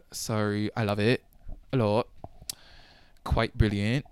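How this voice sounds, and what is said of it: Poor attempt at British accent. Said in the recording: “everyone's British ... my accent is shit.”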